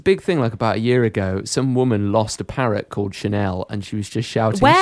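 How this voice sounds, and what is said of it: Usual voice. Nothing is said of it.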